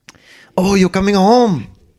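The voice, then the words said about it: Stereotypical Chinese accent. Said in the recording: “ridiculous stereotypical accent ... I can't do the accent”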